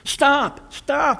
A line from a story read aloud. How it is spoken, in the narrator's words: I cried